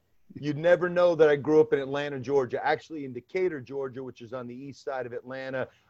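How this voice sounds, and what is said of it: New York accent. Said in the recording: “you got a hell of a New York accent ... You've got that New York accent ... Brooklyn for sure”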